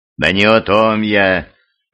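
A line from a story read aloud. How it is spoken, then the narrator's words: Conciliatory priest's tone. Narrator (Russian): примиряющим тоном произнес священник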